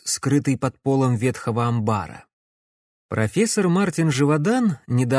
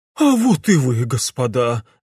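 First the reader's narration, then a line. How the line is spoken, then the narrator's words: Breathless exhale. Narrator (Russian): выдохнул Клопс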